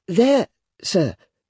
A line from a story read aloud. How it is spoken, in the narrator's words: timidly explained